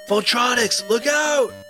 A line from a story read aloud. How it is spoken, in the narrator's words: yelled Finn